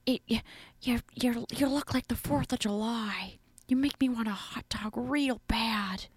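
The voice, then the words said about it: Jennifer Coolidge impression. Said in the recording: “Her voice. ... Jennifer Coolidge. ... Her voice is so annoying. That's what she sounds like all the time.”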